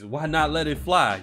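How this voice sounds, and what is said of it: Imitates another person's voice. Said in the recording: “in my Chris Moore voice”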